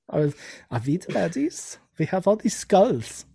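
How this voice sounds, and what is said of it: Put-on German accent with a lisp. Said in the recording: “my German accent has a lisp”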